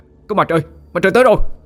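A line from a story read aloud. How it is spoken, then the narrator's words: Crowd shouting. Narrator (Vietnamese): tiếng hét từ đoàn người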